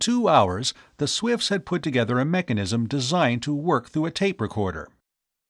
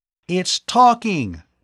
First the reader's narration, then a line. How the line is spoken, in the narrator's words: Tom cried out